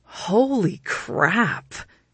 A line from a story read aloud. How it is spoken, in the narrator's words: he exclaimed